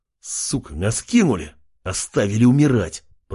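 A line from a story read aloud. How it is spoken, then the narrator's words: Hissing. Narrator (Russian): прошипел Джек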